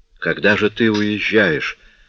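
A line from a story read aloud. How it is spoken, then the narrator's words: Dejected question. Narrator (Russian): упавшим голосом спросил он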